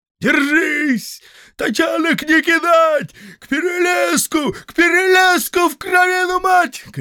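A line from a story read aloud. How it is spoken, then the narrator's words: Chieftain shouting. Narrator (Russian): кричал атаман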